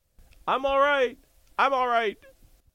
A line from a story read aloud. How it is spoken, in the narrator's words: Uncle Billy yells